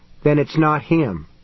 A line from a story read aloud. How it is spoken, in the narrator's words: Mary said flatly